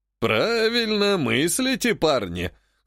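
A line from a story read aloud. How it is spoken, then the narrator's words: Chuckling. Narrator (Russian): хохотнул Стервятник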